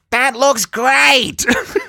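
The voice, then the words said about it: High-pitched David Lynch impression. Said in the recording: “got to do the David Lynch voice... that was David Lynch... He's got a real high-pitched voice.”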